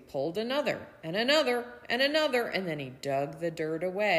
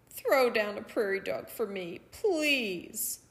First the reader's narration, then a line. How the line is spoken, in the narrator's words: Coyote pleaded